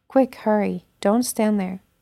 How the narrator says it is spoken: Jonathan called out after the lad

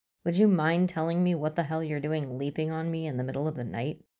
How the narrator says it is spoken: asks

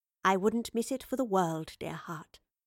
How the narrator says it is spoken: the Professor said in a hushed voice

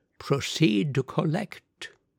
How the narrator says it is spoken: he said softly

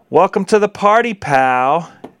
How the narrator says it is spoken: John yelled with delight

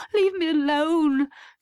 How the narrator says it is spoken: she sobbed

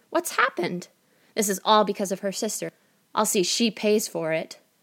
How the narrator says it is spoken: exclaimed the mother

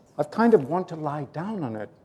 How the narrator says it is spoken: murmured Nordsletten

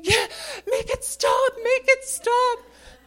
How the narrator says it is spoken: Cameron's screaming

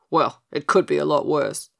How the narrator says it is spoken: chuckled Pigasus

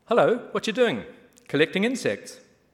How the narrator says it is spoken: Downey called out

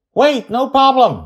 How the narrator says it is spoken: he shouts

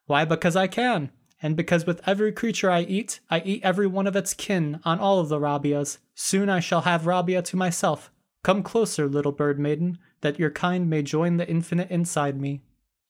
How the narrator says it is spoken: Laughing, the Eater responded

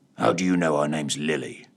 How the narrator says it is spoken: growled

